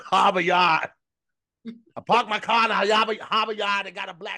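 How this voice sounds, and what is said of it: Yelled put-on Boston accent. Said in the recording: “all the Boston is just me yelling is Boston”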